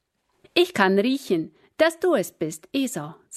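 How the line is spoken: Plain. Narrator (German): sagte Isaak

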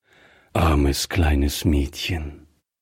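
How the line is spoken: Gentle. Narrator (German): sagte Greffier sanft

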